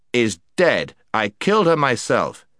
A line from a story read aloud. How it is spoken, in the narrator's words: said the prince sternly